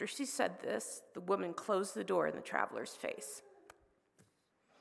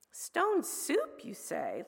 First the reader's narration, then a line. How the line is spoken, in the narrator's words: laughed